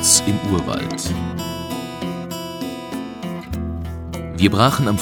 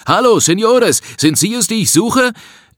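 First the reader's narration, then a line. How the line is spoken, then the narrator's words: Loud call. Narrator (German): rief uns laut entgegen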